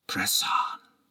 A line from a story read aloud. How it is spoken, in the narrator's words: I whispered in the dark